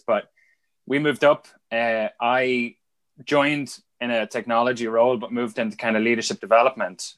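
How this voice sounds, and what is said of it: Irish accent with northern twang. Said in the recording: “You still kept the accent... I don't think the the Belfast stuff has quite uh, caught on yet... you've such a northern twang... on the train between Dublin and Belfast, I'm Dundalk or somewhere like that... that's where my accent is”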